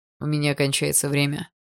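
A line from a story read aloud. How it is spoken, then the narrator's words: Old man's voice. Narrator (Russian): раздался голос старика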